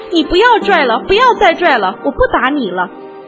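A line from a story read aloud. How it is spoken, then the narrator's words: Pained, desperate pleading. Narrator (Chinese): 疼得根德嗷嗷直叫，苦苦告饶，连声说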